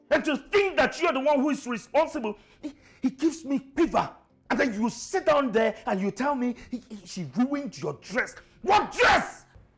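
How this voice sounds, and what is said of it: Shouting angrily. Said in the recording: “you're shouting at me? ... you're yelling at me”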